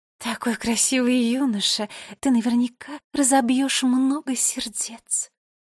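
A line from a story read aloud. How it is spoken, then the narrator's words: Sighing. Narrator (Russian): вздохнула Кникс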